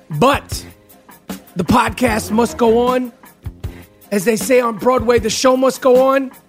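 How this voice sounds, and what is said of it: Worn-out, talked-out voice. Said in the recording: “You have to excuse my voice. ... I am all talked out.”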